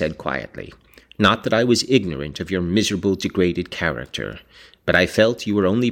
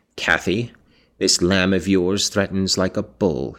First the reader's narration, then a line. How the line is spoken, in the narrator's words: said